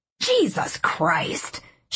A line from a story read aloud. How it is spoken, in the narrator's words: she hissed